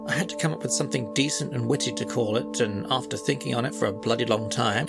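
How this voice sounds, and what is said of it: British accent. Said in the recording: “my scintillating British accent”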